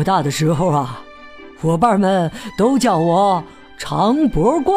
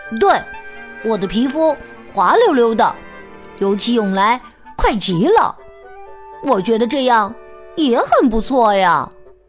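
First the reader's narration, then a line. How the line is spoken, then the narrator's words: Loud, after thought. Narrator (Chinese): 木奇想了想，大声说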